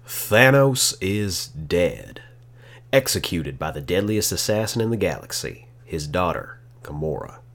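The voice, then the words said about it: Put-on accent while reading. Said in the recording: “I couldn't get out of that accent for a second.”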